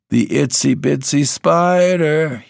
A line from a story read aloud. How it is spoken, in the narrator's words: he croaks, but the key's wrong